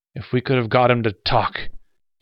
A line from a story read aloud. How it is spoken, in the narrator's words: Gannett snarled helplessly